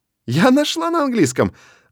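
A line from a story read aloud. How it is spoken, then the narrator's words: Joyful. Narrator (Russian): радостно сообщает Мел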